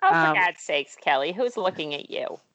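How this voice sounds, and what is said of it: Impression of speaker's mother. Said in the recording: “your own mary corrigan impression ... that impression of your mom”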